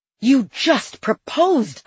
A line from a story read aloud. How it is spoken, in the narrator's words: I yelled